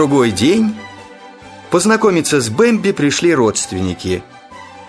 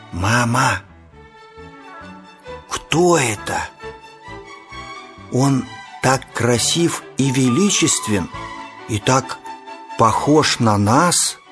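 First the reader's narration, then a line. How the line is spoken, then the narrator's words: Child's frightened, awed whisper. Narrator (Russian): Испуганный и восхищенный, малыш тихо прошептал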